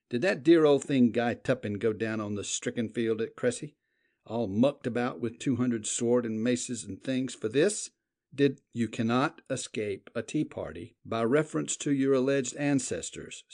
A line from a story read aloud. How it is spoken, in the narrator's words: said the Duke calmly